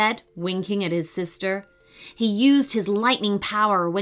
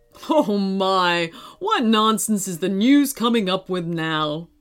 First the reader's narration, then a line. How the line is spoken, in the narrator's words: he said, chuckling to himself